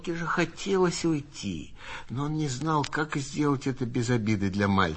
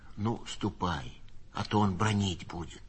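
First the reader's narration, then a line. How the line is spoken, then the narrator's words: Quiet reply. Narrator (Russian): Синисто тихо ответил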